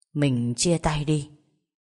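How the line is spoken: Cold flat voice. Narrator (Vietnamese): lạnh lùng, chỉ nói

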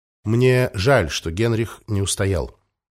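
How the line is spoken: Quiet. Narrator (Russian): негромко произнес Валентин

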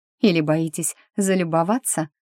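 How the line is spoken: Bitter laugh. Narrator (Russian): Маккорн горько рассмеялся

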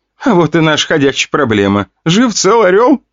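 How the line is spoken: Laughing loudly. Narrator (Russian): хохотала Вика

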